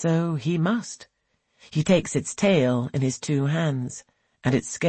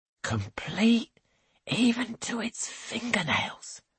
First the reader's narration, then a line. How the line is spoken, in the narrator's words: whispers